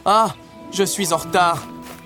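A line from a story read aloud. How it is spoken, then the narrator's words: Exclaiming. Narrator (French): s'écria-t-il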